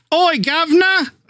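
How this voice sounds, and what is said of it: British accent drifting Australian. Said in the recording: “How's your Shakespearean? ... Perfect. Yep. Nailed it. ... every time you try to go in that British thing, it ends up Australian for some reason.”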